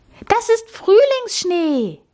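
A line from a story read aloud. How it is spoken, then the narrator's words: Called out. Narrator (German): rief Amalie jetzt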